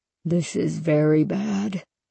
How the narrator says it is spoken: he murmured, talking to himself

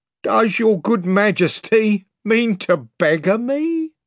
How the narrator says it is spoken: whined Pug

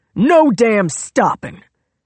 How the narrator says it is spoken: he barked

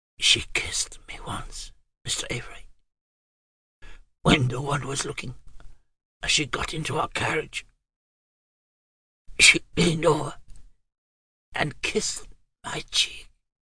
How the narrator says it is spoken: Softly, Jason said

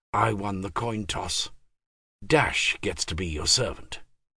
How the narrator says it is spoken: Jimmy whispered back

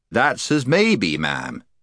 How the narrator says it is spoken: said Puddleglum, very stiffly and on his guard

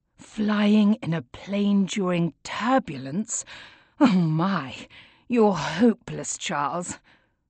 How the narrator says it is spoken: groan

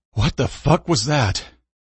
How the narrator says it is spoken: Breathlessly, Owen said

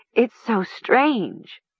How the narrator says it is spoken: Nessa said, her voice trembling

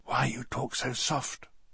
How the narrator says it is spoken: I whispered back

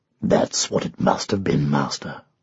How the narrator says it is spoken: rumbled a deep voice

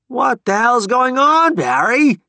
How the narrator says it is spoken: he shouted

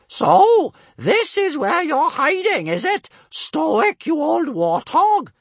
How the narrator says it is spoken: she yelled cheerfully

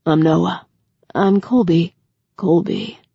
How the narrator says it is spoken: he repeated, in that low, rough voice

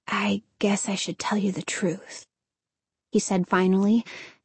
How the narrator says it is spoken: his voice a whisper, as soft as the whisper of the shuddering trees

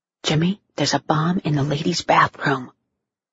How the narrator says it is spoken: whisper in his ear

